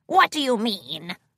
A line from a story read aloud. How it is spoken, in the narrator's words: Boyle grunted